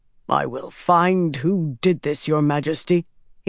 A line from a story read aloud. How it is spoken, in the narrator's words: said in a low voice, a dangerous voice